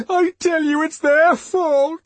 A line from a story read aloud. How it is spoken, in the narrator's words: he sobbed